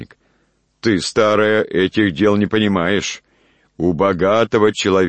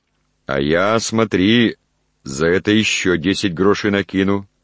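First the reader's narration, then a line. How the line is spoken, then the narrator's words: Plain. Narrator (Russian): сказал он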